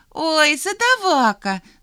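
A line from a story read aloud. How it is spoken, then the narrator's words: Laughing. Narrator (Russian): засмеялась Алька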